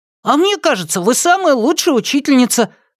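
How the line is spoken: Cheerful shout. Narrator (Russian): выкрикнул бодро Хуан Флорес

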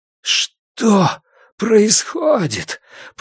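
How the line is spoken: Hoarse rasp. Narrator (Russian): прохрипел я

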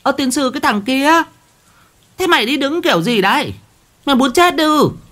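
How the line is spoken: Shrill hiss. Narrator (Vietnamese): Mụ rít lên

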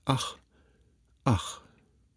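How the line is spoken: Repeated sighing. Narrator (German): Olympia seufzte bloß immer wieder

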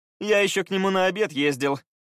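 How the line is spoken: Laughing. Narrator (Russian): рассмеялся Скай

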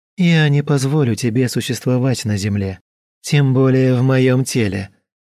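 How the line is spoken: Calm voice. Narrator (Russian): сказала я спокойным голосом

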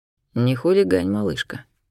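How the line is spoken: Hoarse gentle scolding. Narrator (Russian): Хрипло пожурил меня любимый

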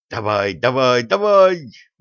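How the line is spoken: Howling. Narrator (Russian): взвыл Федя

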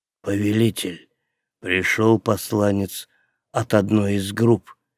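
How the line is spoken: Quiet. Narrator (Russian): негромко проговорил он

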